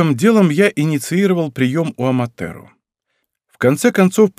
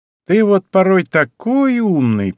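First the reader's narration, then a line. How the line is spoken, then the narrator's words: Drawling. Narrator (Russian): протянула она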